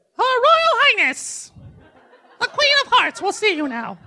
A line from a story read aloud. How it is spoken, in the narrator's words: he chirped